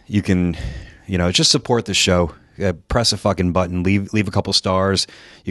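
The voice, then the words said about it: Slightly out of breath. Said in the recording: “I'm a little out of breath. I just ran from the other side of the Creator Pro gym”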